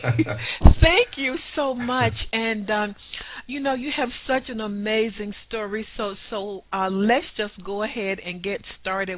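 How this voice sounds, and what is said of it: Smooth Southern American accent. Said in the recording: “I love that southern accent. Sounds so smooth.”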